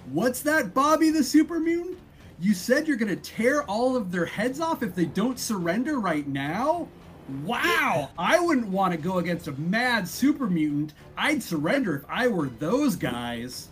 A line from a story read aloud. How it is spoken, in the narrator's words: Pep is going to yell as loud as he can